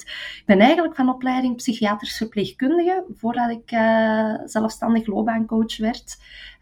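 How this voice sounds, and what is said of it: Flemish Kempen regional accent. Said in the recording (Dutch): “ik ben een Kempendochter. Dat gaan jullie wel horen aan mijn accent, dat er wat in zit.”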